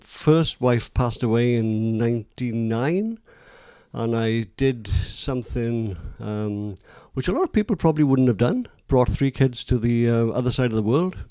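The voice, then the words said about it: Welsh accent. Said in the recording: “people are going to pick it from your accent ... South Wales”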